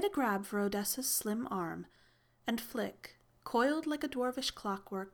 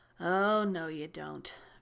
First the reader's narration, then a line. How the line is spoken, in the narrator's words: Victor growled, lumbering to his feet like a bear roused unhappily out of hibernation